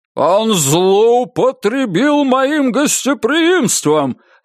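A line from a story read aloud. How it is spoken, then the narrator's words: Barking count. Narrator (Russian): рявкнул граф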